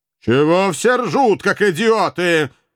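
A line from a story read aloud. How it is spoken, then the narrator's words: Furious roar. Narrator (Russian): уже всерьез разгневанно взревел обладатель оранжевого взгляда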